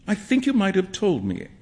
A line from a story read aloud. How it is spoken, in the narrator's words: Alan said, sulkily